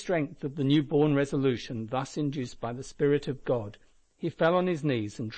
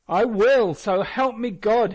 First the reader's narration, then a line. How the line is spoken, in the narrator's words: he exclaimed